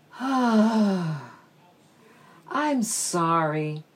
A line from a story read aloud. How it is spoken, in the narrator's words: sighed Mrs